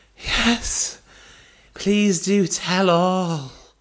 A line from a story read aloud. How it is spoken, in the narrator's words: moaned the acting mistress